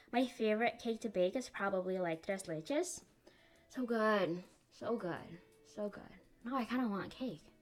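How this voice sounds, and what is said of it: Unusual, odd-sounding accent. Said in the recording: “I have a really weird accent today”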